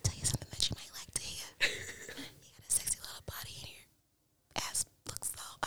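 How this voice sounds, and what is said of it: Whispered ASMR-style voice. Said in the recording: “that whispering to you... Should we do an ASMR podcast?”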